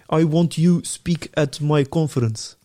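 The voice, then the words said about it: Heavy accent, broken English. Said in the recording (Dutch): “een heel gebroken Engels... Zo heel zwaar accent.”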